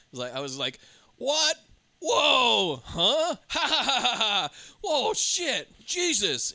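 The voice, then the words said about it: Exaggerated startled reactions and laughter. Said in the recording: “my impression of me watching it throughout”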